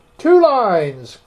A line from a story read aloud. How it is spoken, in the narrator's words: cried the Mock Turtle